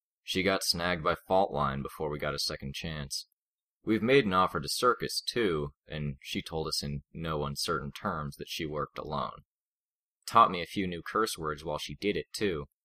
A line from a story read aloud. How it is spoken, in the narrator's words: Alec said